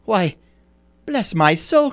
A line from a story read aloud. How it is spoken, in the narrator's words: cried Fred